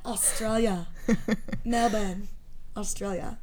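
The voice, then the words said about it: Put-on Australian accent. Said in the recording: “You do the accent, not me.”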